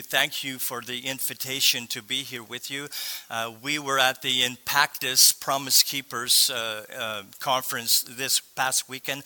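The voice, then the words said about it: Slightly sore voice. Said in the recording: “my voice is a little sore”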